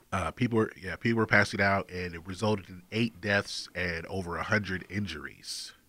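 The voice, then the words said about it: Congested, stuffy-nosed voice. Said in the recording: “I sound a little congested, ... trying to sound uncongested”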